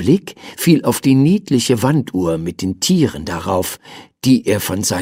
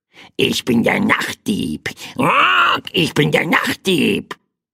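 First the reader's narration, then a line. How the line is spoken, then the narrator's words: Small bird croaking. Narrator (German): krächzte das kleine Federvieh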